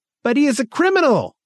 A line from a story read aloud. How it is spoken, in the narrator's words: cried Angmark